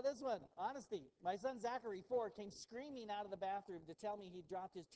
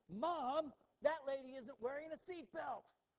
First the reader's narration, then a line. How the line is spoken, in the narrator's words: my five-year-old shout from the back seat